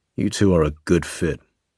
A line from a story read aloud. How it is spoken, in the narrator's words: he sneered